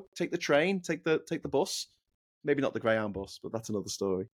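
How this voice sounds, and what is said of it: Liverpool Scouse accent. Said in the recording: “my Liverpool twang. Our accent is called Scouse. So if you like my Scouse accent”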